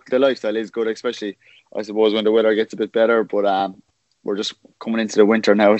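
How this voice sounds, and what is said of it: Irish accent. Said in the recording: “fellow Irish men and women ... No fear of me losing my accent anyway ... plenty of Irish around anyway”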